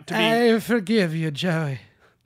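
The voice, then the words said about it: Mock Pope voice. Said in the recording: “That is my Pope impression.”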